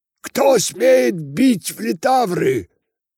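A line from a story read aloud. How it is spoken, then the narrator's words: Shouting. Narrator (Russian): закричал он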